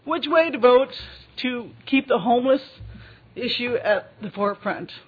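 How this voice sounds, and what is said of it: Slightly emotional, choked-up voice. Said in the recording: “a little emotional,”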